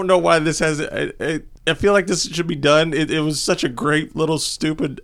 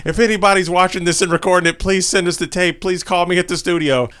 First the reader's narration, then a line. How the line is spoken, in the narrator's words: the face host screaming at the TV saying